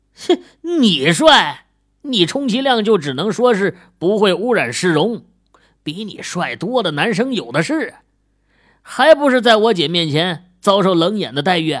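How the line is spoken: Joking, teasing. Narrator (Chinese): 和莫永兴开玩笑道

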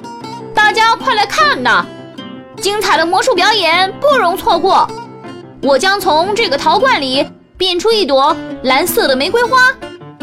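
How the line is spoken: Loud hawking call. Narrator (Chinese): 然后开始大声吆喝

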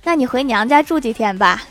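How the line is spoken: Laughing. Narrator (Chinese): 郭大侠笑着说

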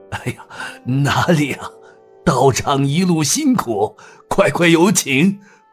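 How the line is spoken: Ingratiating smile. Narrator (Chinese): 梁管家陪笑道

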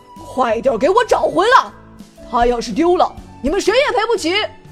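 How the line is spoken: Furious roar. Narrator (Chinese): 镇长怒吼声响彻空中

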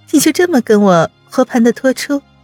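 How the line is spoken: Laughing. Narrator (Chinese): 笑道

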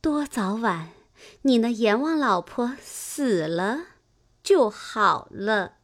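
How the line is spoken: Woman laughing. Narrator (Chinese): 那妇人笑道

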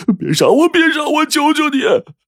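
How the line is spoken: Sudden hoarse terrified scream. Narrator (Chinese): 二表爷笑完一哭，整个沙哑的嗓子里忽然大叫

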